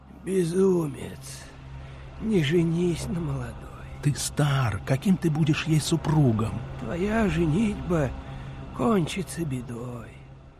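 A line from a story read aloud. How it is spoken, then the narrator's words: Frightened whispering friends. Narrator (Russian): Друзья ему шептали вслед с испугом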